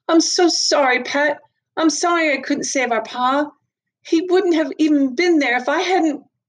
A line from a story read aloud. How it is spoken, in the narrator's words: Then suddenly, quite suddenly, Mags gasped and said